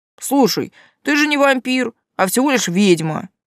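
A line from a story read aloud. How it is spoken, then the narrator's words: Weary. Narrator (Russian): устало проговорил Герхард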